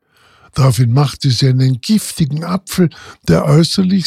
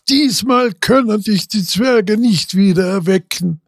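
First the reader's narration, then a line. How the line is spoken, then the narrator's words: Laughing queen speaking. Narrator (German): lachte die Königin und sprach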